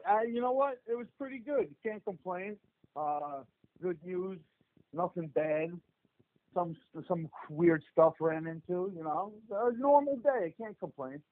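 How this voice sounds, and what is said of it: New Jersey accent. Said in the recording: “you guys are obviously from New Jersey, because as the minute that you guys open your mouth, you can tell... you can hear the accent... you guys all sound scary just because of the accent”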